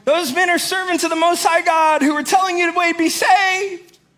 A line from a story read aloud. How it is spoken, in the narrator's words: they're shouting